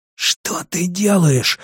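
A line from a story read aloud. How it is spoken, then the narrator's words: Hissing. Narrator (Russian): зашипел он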